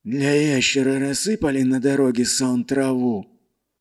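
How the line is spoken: Strained wheeze. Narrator (Russian): натужно просипел главарь

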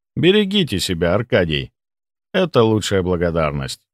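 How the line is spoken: Plain. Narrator (Russian): сказал я

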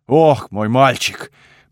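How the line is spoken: Deep bass voice. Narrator (Russian): пробасил он

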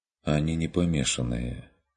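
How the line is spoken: Sighing. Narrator (Russian): вздохнул Курт

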